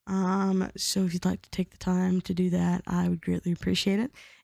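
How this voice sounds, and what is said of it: Slightly funky, not-recovered voice. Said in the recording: “my voice is going to sound a little bit funky this episode. I was sick last week. My voice hasn't quite recovered yet”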